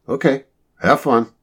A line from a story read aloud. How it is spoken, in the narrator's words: Marty said cheerfully